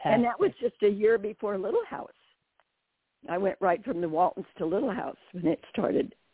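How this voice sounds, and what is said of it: Slightly raspy voice. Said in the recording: “my voice is a little raspy. I've got some hay fever”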